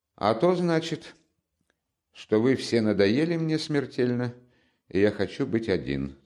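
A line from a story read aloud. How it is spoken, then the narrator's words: Calm. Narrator (Russian): спокойно отвечал Раскольников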